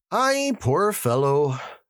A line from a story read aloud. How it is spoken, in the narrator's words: sighed the inspector